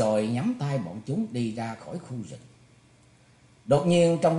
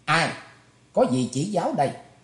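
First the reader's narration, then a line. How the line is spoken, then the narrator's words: Shouted demanding question. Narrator (Vietnamese): Thủy Tuấn Hạo lên tiếng quát hỏi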